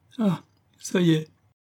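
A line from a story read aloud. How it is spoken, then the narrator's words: Sobbed. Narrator (French): sanglota Suzon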